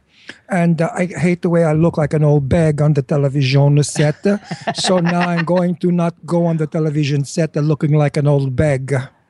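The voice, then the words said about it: Put-on Eastern European accent. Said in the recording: “I'm going to use an accent on this show ... I decided not to have a Brooklyn accent anymore, but to do sort of an Eastern European accent. ... That's worse.”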